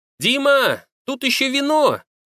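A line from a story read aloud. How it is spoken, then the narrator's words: Shout from another room. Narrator (Russian): крикнула Надя из кухни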